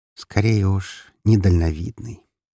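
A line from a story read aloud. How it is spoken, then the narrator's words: Purring. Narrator (Russian): промурлыкала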